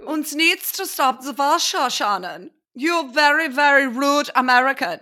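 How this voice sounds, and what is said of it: Put-on vague foreign accent. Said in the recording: “I don't know what accent that was.”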